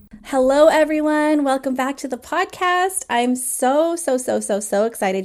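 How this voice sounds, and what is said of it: Smiling, excited voice. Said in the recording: “You could probably hear in my voice how big I'm smiling”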